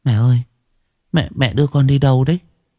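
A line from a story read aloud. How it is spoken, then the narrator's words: Trembling. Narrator (Vietnamese): Cô run rẩy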